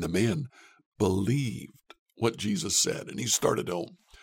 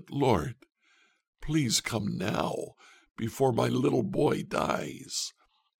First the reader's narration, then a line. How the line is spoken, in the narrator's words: The official pleaded